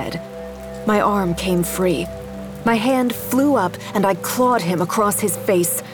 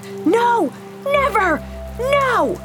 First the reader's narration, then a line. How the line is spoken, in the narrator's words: shouted